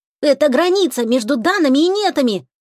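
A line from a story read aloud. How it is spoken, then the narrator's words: Shout. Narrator (Russian): крикнул Тишка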